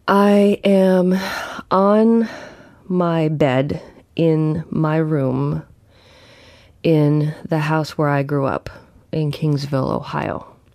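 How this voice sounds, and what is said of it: Groggy, slightly congested voice. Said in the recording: “I'll explain my voice... I think I'm starting to have a cold... my voice sounds like this because I just woke up.”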